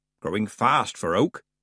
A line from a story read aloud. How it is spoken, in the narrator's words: said Granny